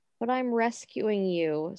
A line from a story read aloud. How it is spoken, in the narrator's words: Snow replies mournfully